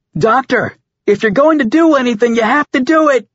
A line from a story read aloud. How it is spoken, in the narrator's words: Over the comm, Tom yelled